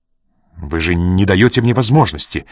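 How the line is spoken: Sharp tone. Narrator (Russian): резким тоном ответил он

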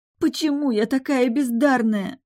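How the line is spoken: Sobbing. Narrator (Russian): рыдала я

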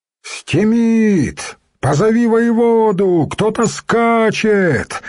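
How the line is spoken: Sentry's shout. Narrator (Russian): закричал дозорный

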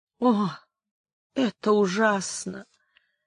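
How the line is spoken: Moaned. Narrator (Russian): простонала Амаранта

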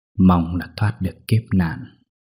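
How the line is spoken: Muttering. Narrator (Vietnamese): lẩm bẩm nói

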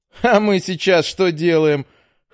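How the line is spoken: Laughing retort. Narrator (Russian): хохотнув, возразил паренек

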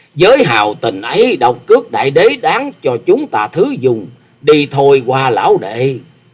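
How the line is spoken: Hearty loud laughter. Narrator (Vietnamese): Phong Trần Túy Khách ha hả cười to nói

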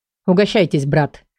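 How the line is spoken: Even voice. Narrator (Russian): ровным голосом ответил Лиран

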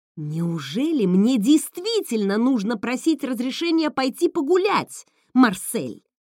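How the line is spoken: Roaring outburst. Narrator (Russian): В ответ на молчание взревела я

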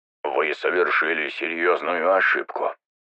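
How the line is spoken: Muttered. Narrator (Russian): пробормотал звездный капитан военно-космических сил технократии

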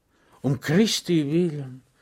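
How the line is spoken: Sighing. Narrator (German): seufzte Schweg

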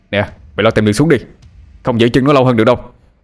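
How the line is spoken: Loud shout. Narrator (Vietnamese): anh liền hét lớn

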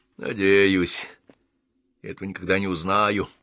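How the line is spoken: Old man's grumble under breath. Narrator (Russian): проворчал старик себе под нос

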